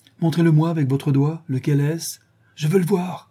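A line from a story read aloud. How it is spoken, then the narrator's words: Exclaiming. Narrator (French): s'écria-t-il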